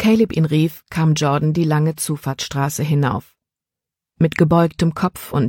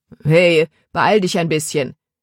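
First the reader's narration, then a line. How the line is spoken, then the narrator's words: Called out. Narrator (German): rief Caleb ihm zu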